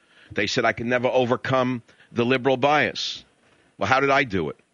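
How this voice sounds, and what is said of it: Strong New York accent. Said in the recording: “They said my accent was too New York”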